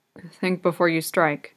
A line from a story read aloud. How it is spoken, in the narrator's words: Keith mumbles out